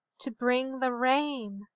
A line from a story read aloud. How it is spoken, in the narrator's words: said Mayanna softly